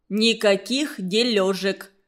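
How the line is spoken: Plain. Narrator (Russian): сказал он

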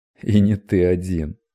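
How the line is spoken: Laughing reply, anticipating success. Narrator (Russian): рассмеялся в ответ Эльгион, предвкушая близкую удачу

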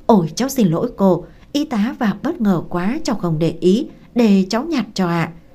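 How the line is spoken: Hurried, flustered. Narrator (Vietnamese): vội vã rối rít nói

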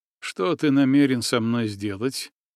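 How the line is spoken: Muffled, hollow question. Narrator (Russian): глухим голосом спросил я

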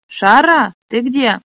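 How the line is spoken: Shouted from next room. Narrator (Russian): крикнула Брека из соседней комнаты

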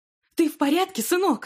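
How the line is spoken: Shouting. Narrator (Russian): закричала Мариса

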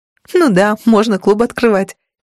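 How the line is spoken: Giggling. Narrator (Russian): хихикнула

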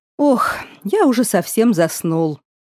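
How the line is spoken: Sigh. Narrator (Russian): вздохнул Стивен

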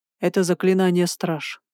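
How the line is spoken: Grim speech. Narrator (Russian): сказал он мрачно

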